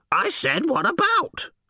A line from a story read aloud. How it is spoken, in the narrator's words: she almost screeched